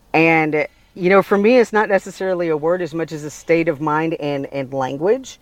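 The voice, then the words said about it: Southern Alabama accent. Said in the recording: “y'all hear my accent, especially when I say y'all ... the South Alabama where I was raised comes out. Or sometimes the Cajun”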